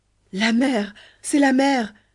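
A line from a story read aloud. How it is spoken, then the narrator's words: Exclamation echoed by chorus. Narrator (French): s'écria Ahmet, et tous de répéter avec lui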